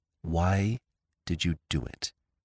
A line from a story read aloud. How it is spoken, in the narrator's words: She said in a low voice